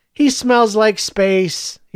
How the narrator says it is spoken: he said dreamily

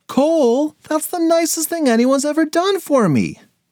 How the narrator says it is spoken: shouted Finn

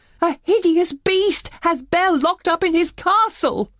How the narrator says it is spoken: Maurice cried

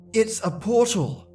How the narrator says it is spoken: I eagerly said

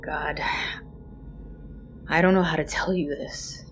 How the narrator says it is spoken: he sighed

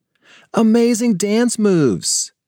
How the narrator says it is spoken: exclaimed Paige

